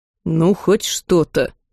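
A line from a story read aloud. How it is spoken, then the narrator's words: Mutter. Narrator (Russian): пробурчал друг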